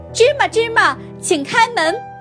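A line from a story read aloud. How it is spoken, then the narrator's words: Courageous loud shout. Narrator (Chinese): 鼓起勇气，大声喊道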